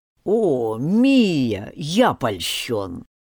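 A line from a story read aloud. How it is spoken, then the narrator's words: Elder's snort. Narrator (Russian): старейшина хмыкнул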